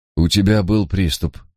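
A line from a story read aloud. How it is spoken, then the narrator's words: Gentle. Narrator (Russian): мягко пояснил он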